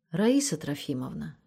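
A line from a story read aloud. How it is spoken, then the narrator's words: Quiet request. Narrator (Russian): тихо попросила она заловку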